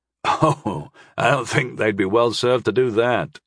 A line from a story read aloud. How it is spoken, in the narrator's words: chuckled Anguin